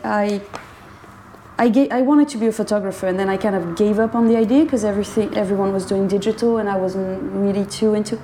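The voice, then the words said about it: French accent. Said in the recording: “this French accent”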